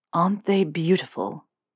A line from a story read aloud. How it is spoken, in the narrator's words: Draco whispers